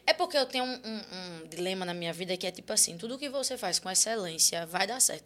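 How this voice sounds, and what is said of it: Speaks with a regional accent. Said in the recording (Portuguese): “eu queria um pote para guardar teu sotaque”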